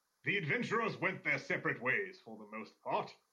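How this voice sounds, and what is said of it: Doc Billings character voice. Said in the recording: “do a voice ... you can't do Doc Billings, like, that's classic”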